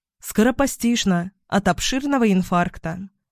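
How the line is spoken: Curt. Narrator (Russian): коротко сообщила она

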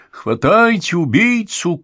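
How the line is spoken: Shouting. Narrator (Russian): крикнул Эб

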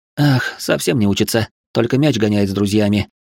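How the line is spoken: Heavy sigh. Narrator (Russian): тяжело вздохнула она

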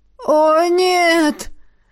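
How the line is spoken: Disappointed groan. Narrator (Russian): разочарованно простонал Джонс

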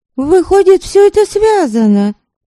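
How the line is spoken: Exclaiming. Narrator (Russian): воскликнула Девляна

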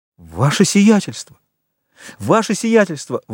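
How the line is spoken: Terrified exclamation. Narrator (Russian): воскликнул управляющий в ужасе от этой угрозы

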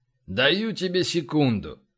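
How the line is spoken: Flat even voice. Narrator (Russian): ровным голосом произнес флегматичный убийца

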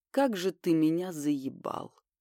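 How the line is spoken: Woman's flat even voice. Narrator (Russian): Женщина абсолютно ровным голосом произносила

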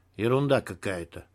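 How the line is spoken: Muttered. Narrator (Russian): пробормотал Егор

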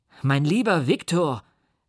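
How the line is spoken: Calling out. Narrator (German): rief er

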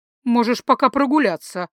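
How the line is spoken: Offended mother. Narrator (Russian): обиженно предложила мама

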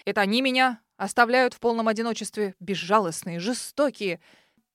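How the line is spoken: Mock-indignant heated exclamation. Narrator (Russian): Притворно возмутился Брайан, запальчиво воскликнув

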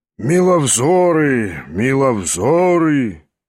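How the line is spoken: Husky bass, slight exclamation. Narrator (Russian): изволил он выговорить сиплым баском и с легким восклицанием

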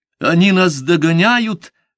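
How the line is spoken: Sudden stifled cry. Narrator (Russian): вдруг сдавленно крикнула девушка

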